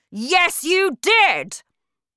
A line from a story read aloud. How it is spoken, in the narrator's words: the Trunchbull shouted back